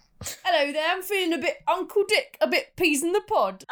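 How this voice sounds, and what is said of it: Put-on Cockney-style accent. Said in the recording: “I'm going to do an accent ... Cockney rhyming slang”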